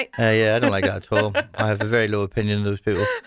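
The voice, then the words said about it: Strong, unchanged regional accent. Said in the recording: “as you can tell from my accent ... There's not a glimpse of getting rid of that at all”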